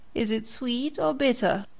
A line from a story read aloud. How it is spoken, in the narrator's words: Pinocchio asked in a whining voice